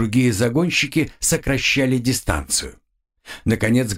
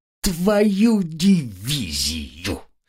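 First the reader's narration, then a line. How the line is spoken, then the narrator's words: Groaning. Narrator (Russian): застонал разведчик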